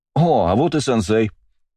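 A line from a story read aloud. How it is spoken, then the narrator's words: Joyful exclamation. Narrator (Russian): обрадованно воскликнул Астарот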